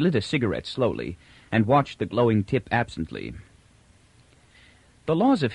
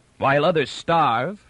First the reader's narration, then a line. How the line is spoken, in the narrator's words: roared Fran suddenly